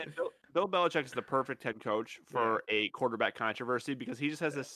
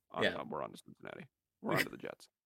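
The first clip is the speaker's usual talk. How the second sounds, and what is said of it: Bill Belichick impression. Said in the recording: “pretty good impersonation”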